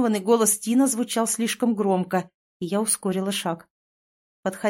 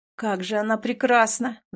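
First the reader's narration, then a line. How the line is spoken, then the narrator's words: Ghost sighing. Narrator (Russian): вздохнул призрак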